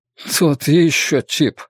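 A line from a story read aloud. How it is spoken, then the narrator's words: Gloomy grumble. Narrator (Russian): мрачно пробурчал Энди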